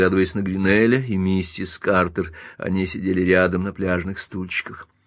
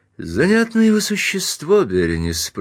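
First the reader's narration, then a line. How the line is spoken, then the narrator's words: Casual, relaxed. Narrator (Russian): продолжал он непринужденным тоном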